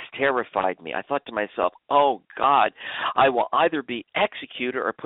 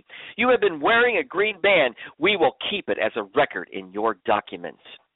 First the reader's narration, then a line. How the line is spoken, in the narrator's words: I heard a woman shouting at me